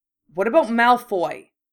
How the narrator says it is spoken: Charlie spat

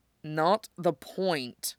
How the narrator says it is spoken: Steve grumbles, looking guilty

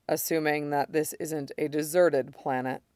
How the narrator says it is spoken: Mace adds quietly

